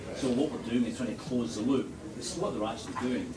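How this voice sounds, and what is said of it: Brooklyn accent. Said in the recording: “Sorry about the accent, by the way. ... He's from Brooklyn, you know. ... Brooklyn accent.”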